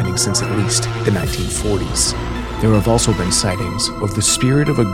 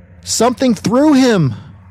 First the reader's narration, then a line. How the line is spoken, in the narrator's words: Mona screamed